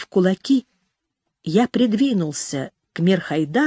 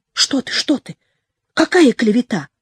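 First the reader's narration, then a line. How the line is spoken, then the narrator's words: Hurried mumbling. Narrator (Russian): Он торопливо забормотал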